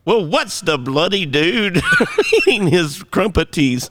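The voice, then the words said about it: Put-on English accent. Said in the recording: “I always wanted to do an English accent ... Let's hear it.”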